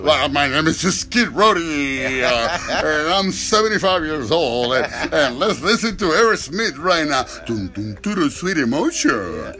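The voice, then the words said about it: Exaggerated morning radio DJ voice. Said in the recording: “typical radio voice in the morning ... one of those morning DJs”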